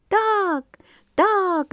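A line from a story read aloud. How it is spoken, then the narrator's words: Many voices shouting. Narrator (Russian): закричали все и птицы, и рыбы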